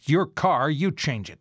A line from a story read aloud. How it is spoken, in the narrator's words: He gave me a stern look and snapped